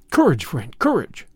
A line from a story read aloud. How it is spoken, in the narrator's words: I cried